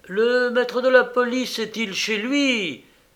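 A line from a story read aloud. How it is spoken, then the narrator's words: Exclaimed. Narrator (French): s'écria-t-il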